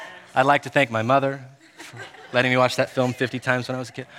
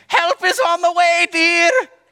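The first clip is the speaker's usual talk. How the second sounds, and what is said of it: Imitates an old grandma character's voice. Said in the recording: “Robin Williams, dressed as an old grandma ... It was a good impression”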